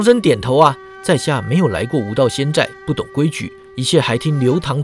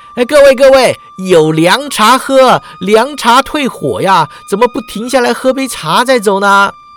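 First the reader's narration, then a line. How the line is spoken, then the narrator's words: Cautious, deferential. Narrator (Chinese): 刘堂主不知对方何许人也，怕得罪了仙寨势力啊，说道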